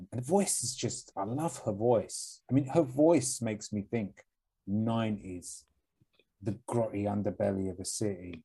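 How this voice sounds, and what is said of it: Cockney accent. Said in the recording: “I hate the Cockney accent I have”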